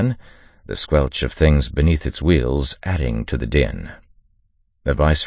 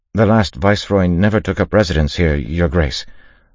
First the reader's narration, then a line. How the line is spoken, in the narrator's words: the lieutenant said, his voice quavering slightly